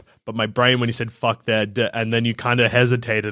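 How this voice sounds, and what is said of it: Usual voice. Nothing is said of it.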